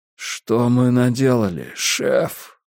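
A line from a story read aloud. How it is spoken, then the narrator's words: Confused mutter. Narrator (Russian): растерянно пробормотал Трэвис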